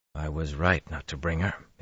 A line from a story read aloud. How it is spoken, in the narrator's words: he muttered